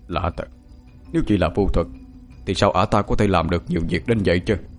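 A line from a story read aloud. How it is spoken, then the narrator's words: Old beggar muttering. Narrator (Vietnamese): lão ăn mày què lẩm bẩm bên tai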